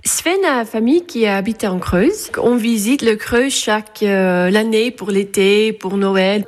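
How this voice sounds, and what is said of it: Dutch accent speaking French. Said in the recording (French): “Il vient d'où votre joli accent ... Je suis née néerlandais, du Pays-Bas.”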